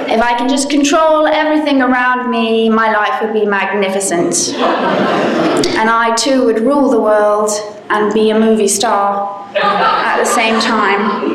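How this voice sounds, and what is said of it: Southern English accent. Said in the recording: “as you can tell, I have an accent. And it goes in and out depending on how passionate I get ... I come from the south coast of England.”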